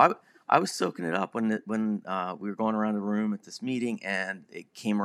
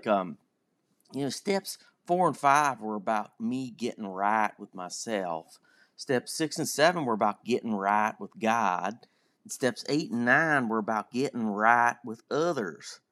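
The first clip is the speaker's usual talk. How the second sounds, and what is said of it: Put-on Southern US accent. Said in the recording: “I'm going to try to do a southern accent.”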